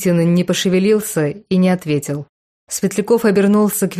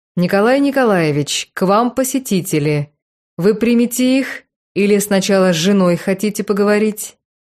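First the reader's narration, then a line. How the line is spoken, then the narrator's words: Loud, drawling speech. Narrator (Russian): громко и немного растягивая слова, произнес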